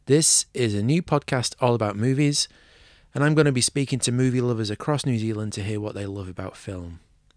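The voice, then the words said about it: English Manchester accent. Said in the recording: “I'm English, which you might be able to tell from my accent, originally from Manchester”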